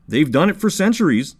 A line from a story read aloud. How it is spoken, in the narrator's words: said Shlema